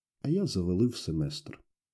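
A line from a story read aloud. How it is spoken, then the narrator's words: Sad, very quiet. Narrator (Ukrainian): я засумував трохи і зовсім тихо сказав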